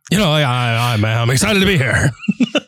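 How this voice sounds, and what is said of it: Whispery celebrity impression. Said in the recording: “Do a Nicolas Cage impression. ... That was Elvis whispering. ... It's like Bill Clinton mixed with Nicolas Cage. ... we'll call it a voice”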